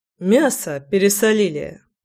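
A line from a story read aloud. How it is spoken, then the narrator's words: Snorted. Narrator (Russian): хмыкнул Заверин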